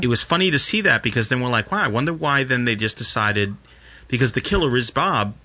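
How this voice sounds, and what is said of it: New York accent. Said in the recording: “your little New Jersey accent made that sentence fantastic ... New York accent ... it slips out”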